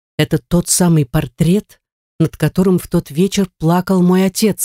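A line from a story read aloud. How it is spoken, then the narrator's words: Plain. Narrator (Russian): сказала она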